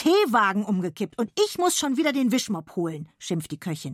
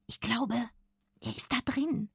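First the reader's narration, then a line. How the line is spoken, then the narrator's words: Whisper. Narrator (German): flüstert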